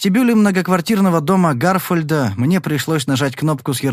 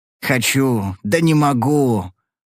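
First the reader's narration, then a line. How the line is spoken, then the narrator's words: Grumbling. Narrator (Russian): проворчал он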